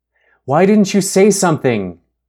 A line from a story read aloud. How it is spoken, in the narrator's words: She shouted